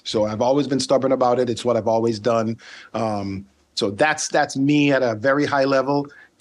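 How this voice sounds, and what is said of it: Slight Caribbean accent. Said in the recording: “I'm picking up a little bit of a ... Caribbean accent going on there”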